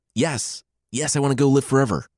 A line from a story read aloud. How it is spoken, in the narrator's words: Sentaro blurted out before he finished